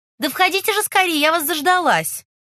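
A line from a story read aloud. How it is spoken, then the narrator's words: Shout. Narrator (Russian): крикнула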